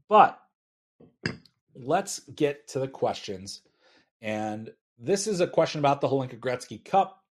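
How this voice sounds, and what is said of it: Dry-sounding voice. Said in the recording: “apparently I'm very dry as well, as you can probably tell by my voice”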